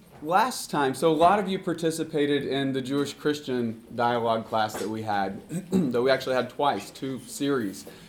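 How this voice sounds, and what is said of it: Slightly hoarse voice, occasionally cracking. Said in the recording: “I'm slightly hoarse... my voice is just a little hoarse, so bear with me if it sort of cracks and squeaks a little”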